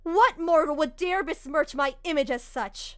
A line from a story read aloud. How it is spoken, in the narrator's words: Orochi shouted